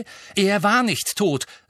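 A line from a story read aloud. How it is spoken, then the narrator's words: Angry. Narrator (German): sagte Harry zornig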